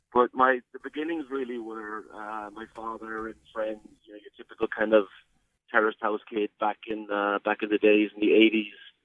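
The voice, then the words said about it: Irish Cork accent. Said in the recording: “a bit of a Cork tinge”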